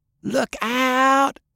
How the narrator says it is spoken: Fay screamed

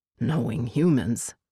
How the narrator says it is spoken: Winwolf murmured

